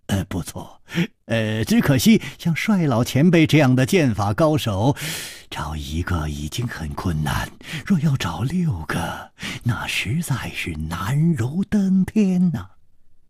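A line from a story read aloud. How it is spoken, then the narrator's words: Calm sighing remark. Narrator (Chinese): 李玉涵面不更色，叹道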